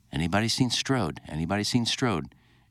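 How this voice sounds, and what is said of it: Put-on English accent. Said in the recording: “in this English accent”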